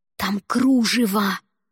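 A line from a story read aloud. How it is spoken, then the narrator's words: Hiss. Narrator (Russian): прошипела я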